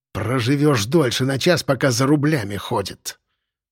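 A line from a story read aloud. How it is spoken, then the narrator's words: Hateful hiss. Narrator (Russian): прошипел с нескрываемой ненавистью Трубецкой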